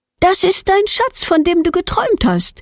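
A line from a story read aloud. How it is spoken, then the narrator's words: Called out. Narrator (German): ruft Petronella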